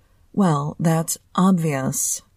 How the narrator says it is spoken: he drawled sarcastically

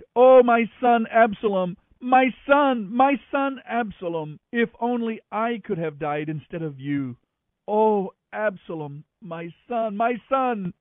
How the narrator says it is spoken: And as he went, he cried

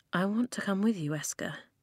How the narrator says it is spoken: Flint said quietly

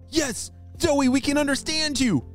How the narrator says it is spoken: shouted Callum

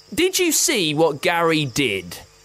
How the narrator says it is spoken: exclaimed, frustration evident in his golden eyes

